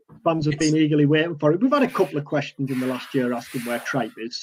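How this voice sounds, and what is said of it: Teesside English accent. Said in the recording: “I'm flying the Teesside flag here. I'm gonna make my Teesside accent even stronger every week.”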